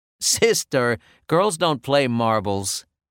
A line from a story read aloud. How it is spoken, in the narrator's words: I said, laughing